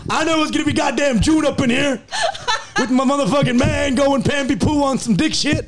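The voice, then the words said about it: Put-on Black American accent, poorly done. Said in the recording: “my black accent isn't good”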